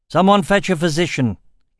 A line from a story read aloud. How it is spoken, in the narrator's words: he said loudly